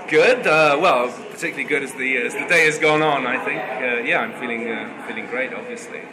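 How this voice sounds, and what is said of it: Southeastern English accent. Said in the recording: “what kind of accent am I hearing there?... English. This is the English accent... You sound slightly different than the other people... it's kind of southeastern England”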